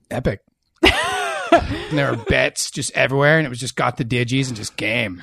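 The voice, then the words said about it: Laid-back surfer dude voice. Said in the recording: “Surfer Voice news segment. There's been a lot of requests for your Surfer Voice”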